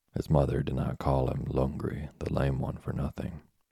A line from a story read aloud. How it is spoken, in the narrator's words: said Mother Wolf quietly